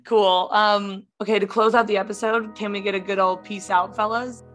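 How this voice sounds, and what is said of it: Strained, mostly lost voice. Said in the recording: “my voice is gone. So this is good because I can't talk.”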